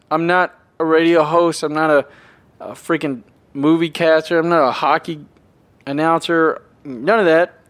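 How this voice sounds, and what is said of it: Tennessee accent. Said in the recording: “good old Tennessee guy. Have a little bit of accent every now and then”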